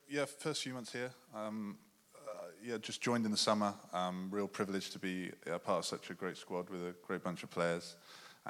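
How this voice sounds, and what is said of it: English accent. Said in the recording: “excuse the accent, but he married an English woman and stayed over there”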